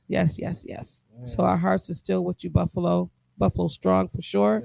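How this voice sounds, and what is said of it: Losing voice, strained. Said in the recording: “I lost my voice ... I see it going away”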